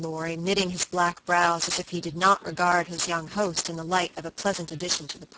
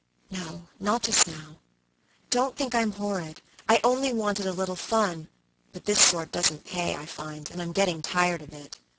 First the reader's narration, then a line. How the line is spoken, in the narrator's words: made her answer in a whisper